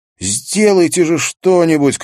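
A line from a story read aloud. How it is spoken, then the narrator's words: Someone shouting. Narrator (Russian): крикнул кто-то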